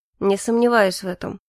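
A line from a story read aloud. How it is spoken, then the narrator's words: Skeptical snort. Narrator (Russian): хмыкнул Калипсо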